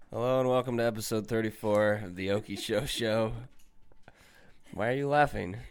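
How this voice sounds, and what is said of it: Sick, unwell-sounding voice. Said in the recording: “you sound terrible ... I'm sick as a dog”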